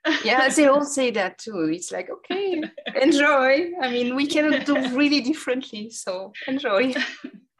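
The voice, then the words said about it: French accent speaking English. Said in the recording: “we are two French ladies speaking in English ... I think our accent speaks for us ... I've been told it's appealing.”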